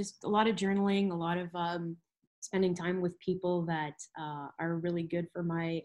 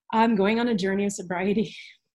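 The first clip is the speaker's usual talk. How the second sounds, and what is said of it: Emotional speech. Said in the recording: “getting emotional.”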